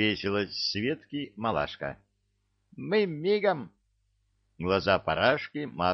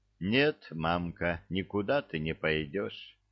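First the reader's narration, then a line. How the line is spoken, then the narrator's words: Sighing. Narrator (Russian): вздохнула Василиса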